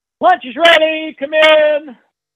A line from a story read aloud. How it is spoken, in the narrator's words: mom yells